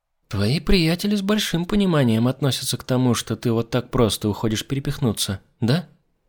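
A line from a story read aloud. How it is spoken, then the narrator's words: Quiet remark. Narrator (Russian): Тихо заметила Дырхан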